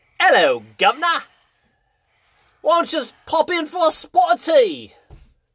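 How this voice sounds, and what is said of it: Weak put-on British accent. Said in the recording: “Can you do British? ... I can't do accent. Like, British would be like ... That's the best I can do.”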